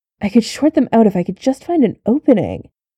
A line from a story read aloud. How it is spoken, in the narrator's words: Clint muttered in frustration